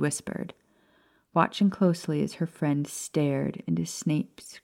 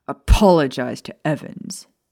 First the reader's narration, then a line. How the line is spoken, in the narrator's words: James roared at Snape, eyes blazing